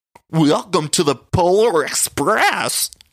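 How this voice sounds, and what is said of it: Impression of Brittany, Gina-like voice. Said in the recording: “this impression of Brittany ... It was literally Gina from The Real Housewives of Orange County ... an impression of Gina from The Real Housewives of Orange County”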